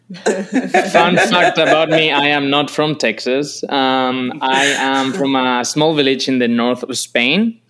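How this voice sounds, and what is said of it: Spanish accent. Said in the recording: “I am from Spain, as you can probably tell. ... I thought I recognized that accent.”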